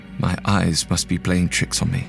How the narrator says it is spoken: in disbelief before I finally murmured

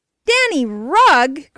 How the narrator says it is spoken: cried Bert

